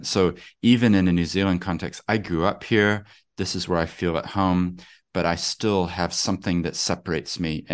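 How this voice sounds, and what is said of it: Non-New Zealand accent. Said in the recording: “as you can hear, my accent, I never changed my accent.”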